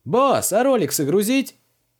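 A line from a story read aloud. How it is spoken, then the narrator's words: Young man shouting. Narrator (Russian): крикнул какой-то мелкий парень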